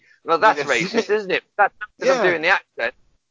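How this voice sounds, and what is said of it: Usual voice. Nothing is said of it.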